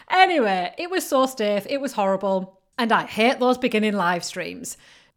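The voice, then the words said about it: Northern English accent. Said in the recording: “I do not speak the Queen's English ... I love your northern accent”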